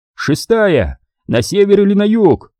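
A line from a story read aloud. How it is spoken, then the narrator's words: Shouting. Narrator (Russian): закричал Дэйв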